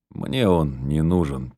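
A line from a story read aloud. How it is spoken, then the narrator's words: Quiet reply. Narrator (Russian): тихо отозвался он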